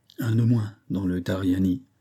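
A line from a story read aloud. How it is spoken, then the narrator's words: Murmur between sighs. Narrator (French): murmura-t-il entre deux soupirs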